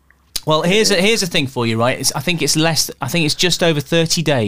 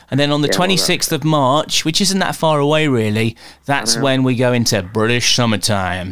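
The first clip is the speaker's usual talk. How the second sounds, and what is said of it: Put-on American accent. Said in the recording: “I don't know why I did it in American accent.”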